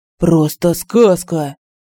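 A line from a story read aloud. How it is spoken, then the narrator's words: Drunken voice. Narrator (Russian): Наверху этажом выше кто-то сказал пьяным голосом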